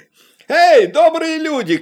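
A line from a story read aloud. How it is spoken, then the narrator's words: Shout. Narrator (Russian): крикнул он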